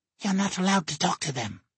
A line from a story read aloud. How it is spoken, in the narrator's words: she hisses at Probo